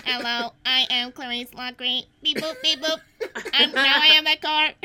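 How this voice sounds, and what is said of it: Robot voice. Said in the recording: “I don't know how to do a robot voice.”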